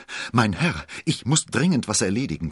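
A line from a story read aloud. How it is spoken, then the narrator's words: Panting. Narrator (German): keuchte er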